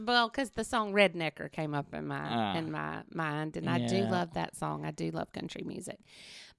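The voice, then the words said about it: Mississippi Southern accent. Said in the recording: “They probably can tell that by our accents... We live in Mississippi.”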